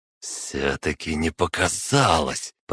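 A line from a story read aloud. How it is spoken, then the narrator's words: Hiss. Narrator (Russian): прошипел Скоробогатов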